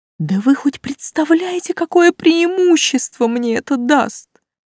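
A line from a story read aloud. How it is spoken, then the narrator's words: Joyful loud cry. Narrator (Russian): радостно возопил Густав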